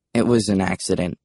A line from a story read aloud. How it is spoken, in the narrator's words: I mumbled